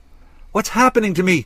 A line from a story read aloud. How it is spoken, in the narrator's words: cried